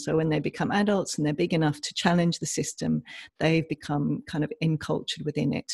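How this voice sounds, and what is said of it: English accent. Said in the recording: “I'm from England, as you can probably tell from my accent”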